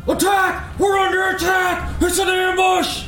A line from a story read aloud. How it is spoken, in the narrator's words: one of the Dwargar yells out in this Dwarven Dwargar dialect, just shouts out